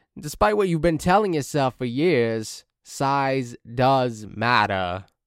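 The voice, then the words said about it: Impression of Big Cass. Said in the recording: “my best big Cass impression”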